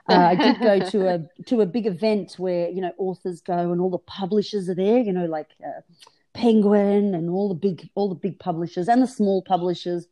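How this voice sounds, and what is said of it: Australian accent. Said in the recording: “I'm in Australia, for those of you that haven't recognized this strange accent.”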